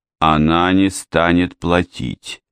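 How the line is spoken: Muffled, flat. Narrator (Russian): глухо произнесла Мэри

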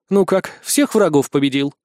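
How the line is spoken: Snorted. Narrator (Russian): Снова фыркнула Ванесса

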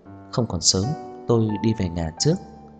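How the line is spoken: Quiet explanation. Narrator (Vietnamese): Cô nhỏ giọng giải thích

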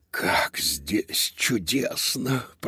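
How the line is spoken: Whisper. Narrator (Russian): прошептал Додо, который впервые оказался на кухне великого шеф-повара

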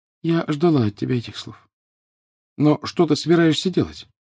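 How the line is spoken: Sad. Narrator (Russian): А Гермиона лишь печально сказала

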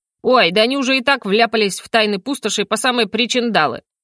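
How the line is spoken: Grumbled. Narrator (Russian): Пробурчал Йо-Йо

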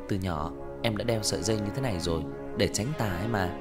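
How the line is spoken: Soft laugh. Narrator (Vietnamese): Tần Cẩm khẽ cười

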